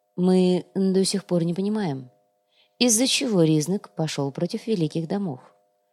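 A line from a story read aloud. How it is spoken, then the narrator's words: Calm explanation. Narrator (Russian): спокойно объяснил комиссар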